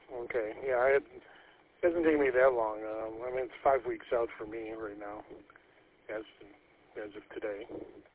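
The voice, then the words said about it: Slightly raspy voice. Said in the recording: “my voice is still a little raspy”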